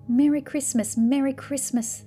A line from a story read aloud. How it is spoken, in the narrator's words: they cried